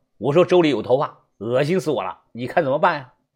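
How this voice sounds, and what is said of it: Northeastern Chinese accent, sounds local. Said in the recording (Chinese): “听我一口正宗的东北口音，哎，像本地人”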